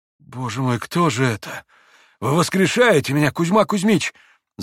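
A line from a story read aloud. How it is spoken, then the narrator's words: Sudden babbling. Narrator (Russian): залепетал вдруг Митя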